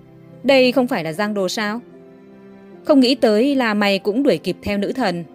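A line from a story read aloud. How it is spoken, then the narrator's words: Sneering laugh. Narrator (Vietnamese): Trần Nghị cười nhạt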